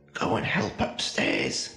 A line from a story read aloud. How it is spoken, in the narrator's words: hissed at them